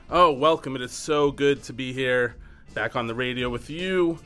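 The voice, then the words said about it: Raspy voice. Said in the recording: “Why do I have a raspy voice?”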